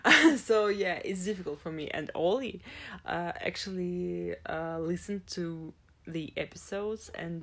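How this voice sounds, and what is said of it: Non-native English accent, likely Russian. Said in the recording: “my accent... I actually like how my voice sounds in English more than in Russian”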